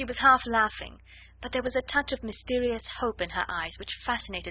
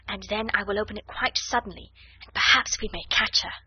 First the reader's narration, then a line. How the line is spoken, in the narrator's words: she whispered